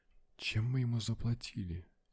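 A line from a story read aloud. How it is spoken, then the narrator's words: Barely audible question. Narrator (Russian): едва слышно спросил я у Меган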